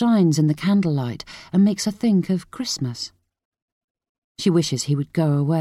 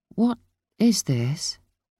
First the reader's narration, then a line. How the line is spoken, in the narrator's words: she asks sleepily